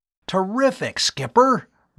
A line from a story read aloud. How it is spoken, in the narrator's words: Bud exclaimed